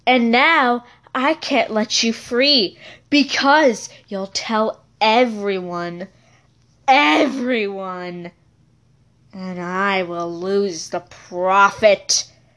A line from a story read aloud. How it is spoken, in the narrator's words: Lucy said in an evil voice